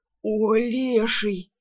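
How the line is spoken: Groan. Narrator (Russian): простонал

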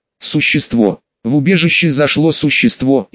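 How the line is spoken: Frightened reply. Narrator (Russian): испуганно ответил человек

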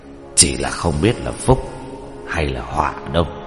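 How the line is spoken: Soft sigh. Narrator (Vietnamese): Nghiễm Tông Thiên Sư khe khẽ thở dài

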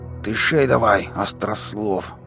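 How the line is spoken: Growled. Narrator (Russian): прорычал Шрам

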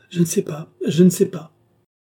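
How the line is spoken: Exclaimed. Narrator (French): s'écria Marie-Antoinette

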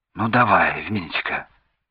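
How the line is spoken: Encouraging whisper, father. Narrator (Russian): прошептал поощрительно отец

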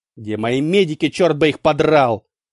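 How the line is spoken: Angry curt remark. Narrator (Russian): Зло бросил Валенштейн

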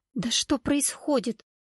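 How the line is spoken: Exhausted whisper. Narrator (Russian): шептала Валерия, обессиленно

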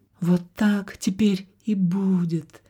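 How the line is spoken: Sad. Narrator (Russian): печально сказала принцесса

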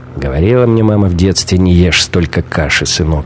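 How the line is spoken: Grumble. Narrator (Russian): проворчал Шибанов

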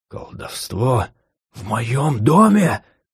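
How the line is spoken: Whispered exclamation. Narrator (Russian): шепотом вскричал Аталь

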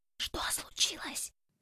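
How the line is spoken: Whisper. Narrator (Russian): прошептала Альба

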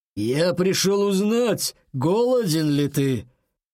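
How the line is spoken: Rough menacing male voice. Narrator (Russian): грубо спросил грозный мужской голос

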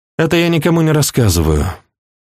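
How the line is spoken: Woman sighing. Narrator (Russian): вздохнула она

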